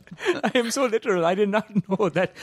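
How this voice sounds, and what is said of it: Put-on Indian accent. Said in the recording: “say in an Indian accent”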